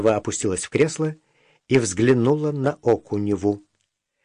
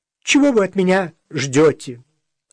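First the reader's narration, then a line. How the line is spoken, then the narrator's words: Former ballerina snapping. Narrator (Russian): огрызнулась бывшая балерина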